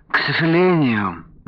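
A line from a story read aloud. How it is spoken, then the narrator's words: Sighing. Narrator (Russian): вздохнул продавец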